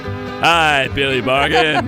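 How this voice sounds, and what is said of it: Exaggerated radio announcer voice. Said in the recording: “my super radio announcer voice”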